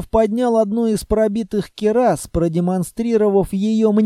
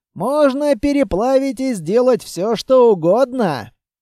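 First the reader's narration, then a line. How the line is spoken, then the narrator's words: Chuckling. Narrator (Russian): хохотнул Кузьма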